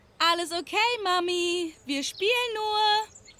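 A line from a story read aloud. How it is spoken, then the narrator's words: Shouting. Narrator (German): rief die, die Mabel umklammert hielt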